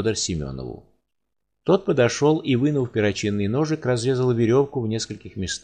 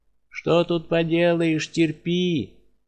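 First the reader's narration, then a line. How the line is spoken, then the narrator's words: Sighing. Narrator (Russian): вздохнув, он прибавил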